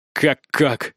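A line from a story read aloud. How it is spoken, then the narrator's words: Angry mocking mimicry. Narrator (Russian): Зло передразниваю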